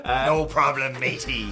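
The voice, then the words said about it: Pirate accent. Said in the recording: “Can ... do a pirate accent? ... you now have to do the rest of the video in a pirate accent”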